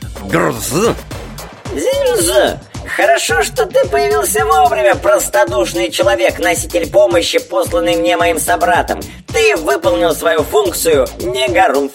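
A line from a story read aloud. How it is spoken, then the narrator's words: Cheerful creaky voice. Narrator (Russian): Билл жизнерадостно проскрипел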